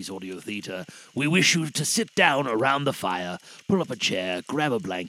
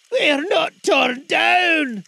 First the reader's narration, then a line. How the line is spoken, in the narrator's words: cried Scrooge